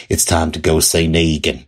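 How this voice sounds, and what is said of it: Poor impression of Maggie's farm-girl accent. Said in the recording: “I loved Lauren Cohan's portrayal of Maggie. I love how every once in a while she lets that farm girl accent come out ... I know I did a terrible impression of that”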